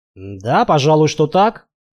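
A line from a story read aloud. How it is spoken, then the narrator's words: Confused mumble. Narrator (Russian): растерянно пробормотал я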